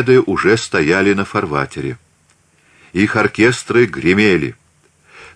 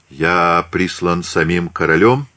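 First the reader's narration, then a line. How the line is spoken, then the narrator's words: Plain, in Russian. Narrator (Russian): сказал он по-русски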